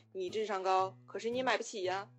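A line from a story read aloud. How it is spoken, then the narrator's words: Flat, indifferent. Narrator (Chinese): 然后他爹淡淡的回了一句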